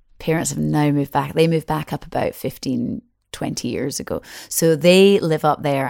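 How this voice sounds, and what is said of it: Strong Scottish accent. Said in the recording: “you've got a pretty good, strong Scottish accent”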